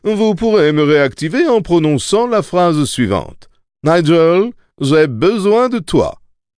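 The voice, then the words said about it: Snobbish British accent. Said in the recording (French): “avec son accent british snob”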